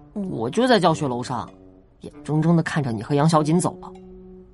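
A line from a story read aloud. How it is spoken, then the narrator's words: Cold. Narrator (Chinese): 颜六元冷冷地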